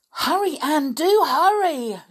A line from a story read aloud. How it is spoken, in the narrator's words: shouted Dick, who was just behind